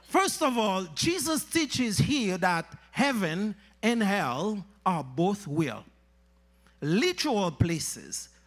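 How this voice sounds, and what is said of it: Speaks English with a foreign accent. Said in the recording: “I hope you understand my accent.”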